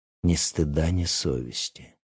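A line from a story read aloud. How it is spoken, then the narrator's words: Muttered aside. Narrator (Russian): девушка за соседним столом пробормотала, обращаясь к остальным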